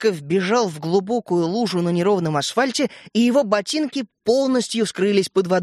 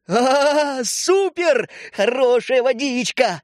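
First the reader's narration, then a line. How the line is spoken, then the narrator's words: Howling. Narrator (Russian): взвыл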